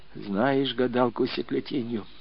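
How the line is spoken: Whispered question. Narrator (Russian): шепотом спрашивал Сосунов

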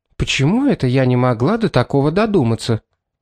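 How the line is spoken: Sharp but quiet. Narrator (Russian): резко спросила Шарлотта, но тихим голосом

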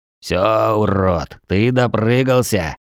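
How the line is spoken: Growling, baring teeth. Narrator (Russian): Прорычавший орк оскалился

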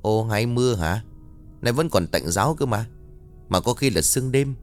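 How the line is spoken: Old woman muttering. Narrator (Vietnamese): mồm lẩm bẩm nói

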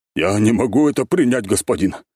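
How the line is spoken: Surprisingly agitated voice. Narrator (Russian): удивительно взволнованным голосом ответил африканец

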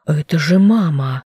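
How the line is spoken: Shocked breathless exhale. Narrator (Russian): потрясенно выдохнул Дэш

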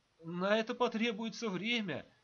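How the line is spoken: Timid babbling. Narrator (Russian): пролепетал Баранников

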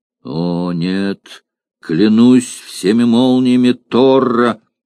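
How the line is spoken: Thunderous furious exclamation. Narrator (Russian): громоподобным голосом воскликнул, не помня себя от гнева, германец

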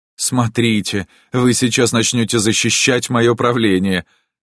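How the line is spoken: Exclamation. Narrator (Russian): воскликнул Отто

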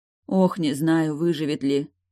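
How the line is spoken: Sorrowful sigh. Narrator (Russian): горестно вздохнула вдова

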